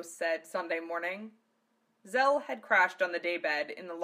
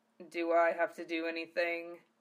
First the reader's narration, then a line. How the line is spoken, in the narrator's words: Zell groaned